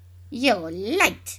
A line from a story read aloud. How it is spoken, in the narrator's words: snapped